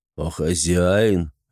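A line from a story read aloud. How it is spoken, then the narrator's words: Lazy question. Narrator (Russian): лениво спросил Ибрагим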